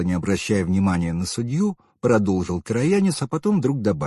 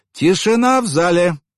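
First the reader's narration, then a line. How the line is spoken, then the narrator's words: Sharp bark, judge. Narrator (Russian): рявкнула судья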